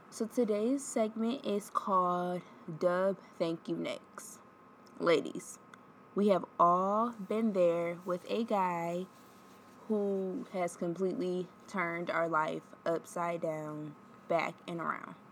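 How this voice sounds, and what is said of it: Stuffed-up congested voice. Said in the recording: “I sound a little stuffed up... just getting over like month cold”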